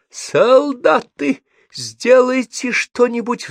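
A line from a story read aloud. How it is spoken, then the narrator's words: Pleaded, male. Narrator (Russian): взмолился он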